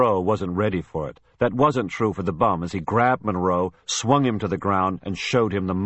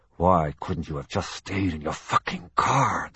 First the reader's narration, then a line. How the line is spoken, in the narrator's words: the man hissed